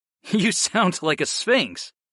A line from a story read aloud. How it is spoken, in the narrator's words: I laughed